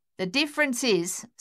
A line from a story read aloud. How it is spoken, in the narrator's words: Sonia snapped